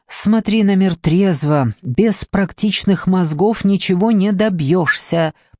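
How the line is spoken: Tight-lipped mother, through teeth. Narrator (Russian): поджав губы, процедила бы мать

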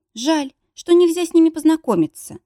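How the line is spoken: Sad sigh. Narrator (Russian): грустно вздохнула

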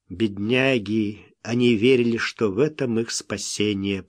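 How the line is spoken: Muttered. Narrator (Russian): пробормотал Смок

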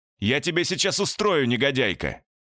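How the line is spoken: Shouting over rain. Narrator (Russian): кричал я сквозь шум дождя

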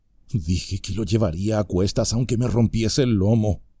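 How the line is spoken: Murmured. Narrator (Spanish): murmuró

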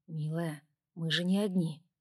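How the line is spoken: Reproachful. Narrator (Russian): он мягко укоризненно сказал

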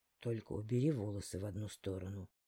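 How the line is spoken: Quiet, into ear. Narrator (Russian): тихо сказал он мне на ухо

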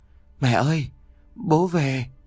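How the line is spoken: Small child, trembling crying. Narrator (Vietnamese): một bóng người nhỏ bé run rẩy bật lên tiếng khóc

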